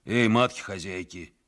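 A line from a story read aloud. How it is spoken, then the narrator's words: Hoarse calling out. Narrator (Russian): сипло покрикивали они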